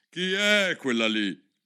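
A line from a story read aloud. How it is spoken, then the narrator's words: Imperious commanding voice. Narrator (Italian): la regina disse con voce imperiosa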